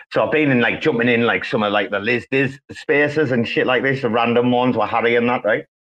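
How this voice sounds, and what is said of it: Very strong, noticeable accent. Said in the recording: “your accent is very strong... It's very strong. It's noticeable.”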